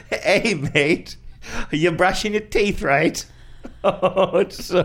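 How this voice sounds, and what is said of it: Bad fake Australian accent. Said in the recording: “me doing a bad Australian accent ... bad.”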